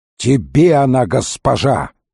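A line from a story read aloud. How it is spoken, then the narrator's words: Growl. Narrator (Russian): прорычал правый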